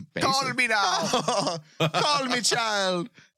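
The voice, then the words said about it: Poor put-on Jamaican accent. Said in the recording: “Our Jamaican accent's terrible ... I don't think it's a Jamaican accent. I think it's Creole ... those accents are horrible”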